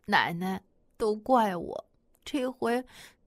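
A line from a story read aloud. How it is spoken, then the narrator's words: Crying. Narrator (Chinese): 喜儿哭着对马奶奶说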